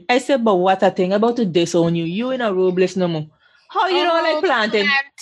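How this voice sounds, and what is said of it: Strong regional accent. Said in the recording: “My accent come out strong there”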